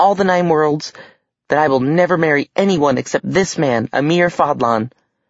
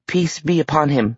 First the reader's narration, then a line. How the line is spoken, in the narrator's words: he stammered